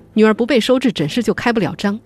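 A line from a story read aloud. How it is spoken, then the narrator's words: Roaring. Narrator (Chinese): 他对医生吼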